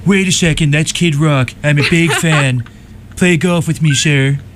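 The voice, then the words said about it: Imitates another person's voice. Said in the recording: “Throwing out that impression there.”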